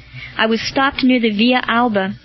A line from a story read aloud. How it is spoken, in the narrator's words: said Marcellus